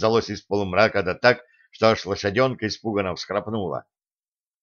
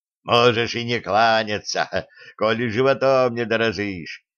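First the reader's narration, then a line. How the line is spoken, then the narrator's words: Hoarse voice. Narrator (Russian): хрипло раздалось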